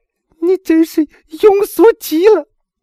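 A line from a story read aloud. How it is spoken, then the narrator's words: Loud, choking sobs. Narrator (Chinese): 艾米娜哽咽着大声说道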